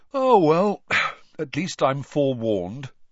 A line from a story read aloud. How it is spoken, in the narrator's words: Ron yawned